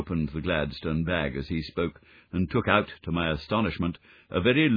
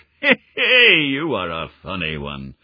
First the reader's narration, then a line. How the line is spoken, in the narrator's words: chuckled the inspector